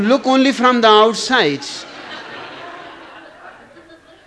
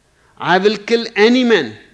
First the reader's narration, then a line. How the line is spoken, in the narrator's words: replied the Texan